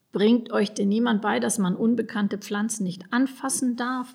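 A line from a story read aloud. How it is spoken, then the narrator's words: Murmur. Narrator (German): murmelte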